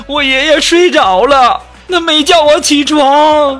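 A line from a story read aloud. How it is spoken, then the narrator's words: Crying child. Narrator (Chinese): 小学生哭着继续说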